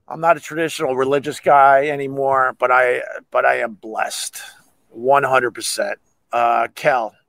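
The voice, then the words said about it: Hoarse, strained, fading voice. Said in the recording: “losing my voice because it's cold out here and I ranted today”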